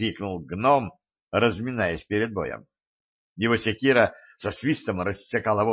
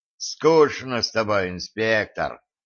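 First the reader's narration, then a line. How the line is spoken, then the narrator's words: Biker sighing. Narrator (Russian): вздохнул байкер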